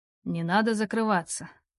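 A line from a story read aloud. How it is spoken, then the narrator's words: Thrilling husky voice. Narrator (Russian): в голосе Роу появилась волнующая хрипотца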